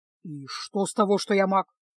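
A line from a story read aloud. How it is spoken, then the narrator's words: Menacing question. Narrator (Russian): грозно спросил чародей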